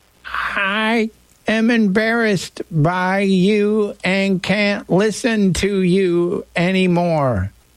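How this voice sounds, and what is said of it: Imitates another person's voice. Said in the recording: “shouldn't do that voice when I'm talking about my mom”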